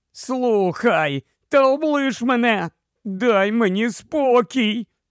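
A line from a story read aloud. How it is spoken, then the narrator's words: Groaned. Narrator (Ukrainian): простогнав Юстас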